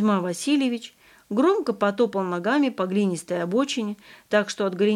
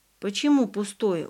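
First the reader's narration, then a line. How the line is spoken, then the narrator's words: Dejected voice. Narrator (Russian): упавшим голосом переспросил Ваня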